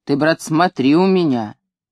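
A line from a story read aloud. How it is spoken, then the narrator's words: Stern. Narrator (Russian): хозяин говорил мне строго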